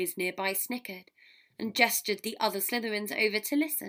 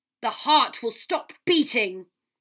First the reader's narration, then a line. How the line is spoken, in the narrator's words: said in a harsh voice quite unlike herself